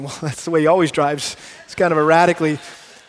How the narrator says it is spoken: Kelly's over there chuckling, going

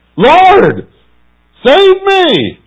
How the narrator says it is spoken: He screamed

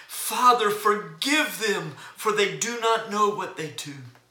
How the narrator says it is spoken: Jesus cried out

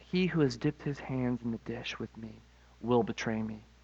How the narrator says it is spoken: Jesus calmly says

